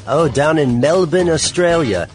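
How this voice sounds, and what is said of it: Bad put-on Australian accent. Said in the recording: “that was a horrible accent. ... Australian”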